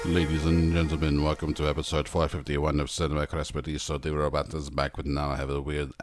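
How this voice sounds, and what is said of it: Robot voice with vaguely German accent. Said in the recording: “I'm trying to place the accent this robot has. It's like, it's vaguely German... It's a vaguely German accent, but also my wires are crossed, so maybe it's a little Austrian.”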